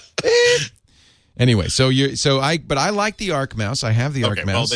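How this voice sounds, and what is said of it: Usual voice. Nothing is said of it.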